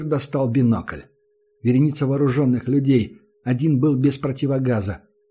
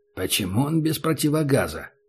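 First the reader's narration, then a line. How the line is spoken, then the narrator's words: Whispered question. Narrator (Russian): спросил Убер шепотом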